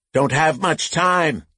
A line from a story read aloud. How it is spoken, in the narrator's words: Lucas shouted to the drivers